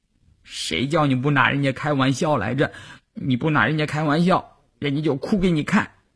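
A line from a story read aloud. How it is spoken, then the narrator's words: Crying while speaking. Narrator (Chinese): 季杰一边哭一边说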